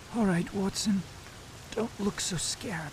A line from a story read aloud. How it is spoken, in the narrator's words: he muttered in a very weak voice